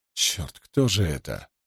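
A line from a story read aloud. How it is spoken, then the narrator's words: Whisper. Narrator (Russian): прошептал Грейс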